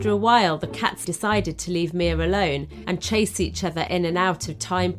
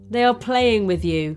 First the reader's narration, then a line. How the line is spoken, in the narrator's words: he laughed